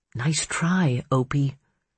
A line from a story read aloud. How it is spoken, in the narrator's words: she said under her breath